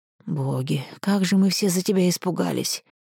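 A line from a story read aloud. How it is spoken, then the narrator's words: Relieved exhale. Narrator (Russian): С облегчением выдохнул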